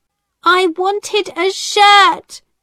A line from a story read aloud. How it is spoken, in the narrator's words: James cried